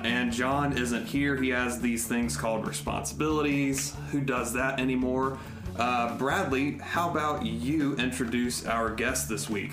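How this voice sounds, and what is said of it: Smooth announcer-style radio voice. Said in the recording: “a smirk on his face at your radio voice”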